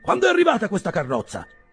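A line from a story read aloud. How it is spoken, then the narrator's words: Old man exclaiming. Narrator (Italian): esclamò il vecchio Wardle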